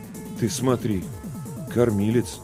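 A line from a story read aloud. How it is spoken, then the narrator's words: Bewildered mutter. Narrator (Russian): растерянно пробормотал Ларионов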